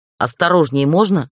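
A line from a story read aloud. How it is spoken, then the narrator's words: Snapped tearfully. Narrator (Russian): рыкнула я, когда мне на глаза в очередной раз навернулись слезы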